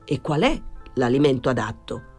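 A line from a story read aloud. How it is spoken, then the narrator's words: Plain. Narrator (Italian): chiese Pilon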